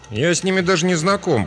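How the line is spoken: Grumbling. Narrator (Russian): проворчал он

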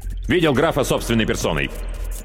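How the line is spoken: Somewhat sharp reply. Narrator (Russian): несколько резко ответил Васильев

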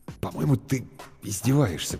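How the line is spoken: Uncertain mutter. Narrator (Russian): пробормотал Бергман неуверенно

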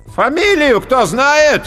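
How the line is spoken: Loud commanding call. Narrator (Russian): громко и властно выкликал толстяк

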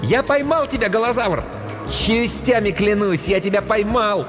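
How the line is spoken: Distant happy shout. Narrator (Russian): Где-то в отдалении счастливый голос прокричал

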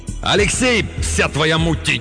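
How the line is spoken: Shouting. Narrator (Russian): крикнул

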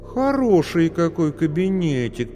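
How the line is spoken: Drawled. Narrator (Russian): протянула

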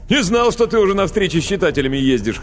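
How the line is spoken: Chuckling. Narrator (Russian): хохотнул Козловский

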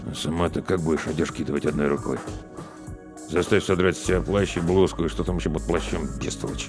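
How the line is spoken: Muffled grumble behind hand. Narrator (Russian): Соловейка буркнул, прикрываясь ладонью

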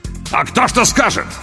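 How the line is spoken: Sudden near bark. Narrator (Russian): Вдруг почти рявкнул Апату

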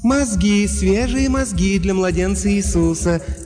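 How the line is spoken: Soft cooing contralto. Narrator (Russian): мягким контральто проворковала ферма

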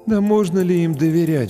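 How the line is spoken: Sighing. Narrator (Russian): вздохнул кто-то

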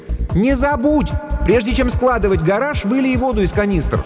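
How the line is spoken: Shouting after someone. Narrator (Russian): Дженни крикнула ей вслед

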